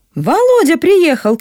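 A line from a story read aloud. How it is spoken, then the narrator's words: Shout from outside. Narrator (Russian): крикнул кто-то на дворе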